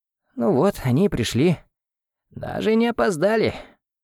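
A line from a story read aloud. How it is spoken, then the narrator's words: Hoarse rasp from floor. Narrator (Russian): прохрипела Дарья с пола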